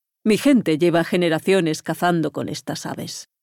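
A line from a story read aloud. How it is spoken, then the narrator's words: Plain. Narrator (Spanish): dijo Al-Walid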